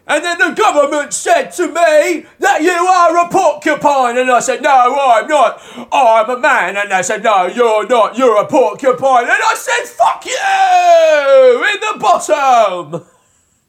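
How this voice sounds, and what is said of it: British-style shouted spoken word. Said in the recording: “a very British-style spoken word shouting about vaguely political ... That's my impression of Sleaford Mods”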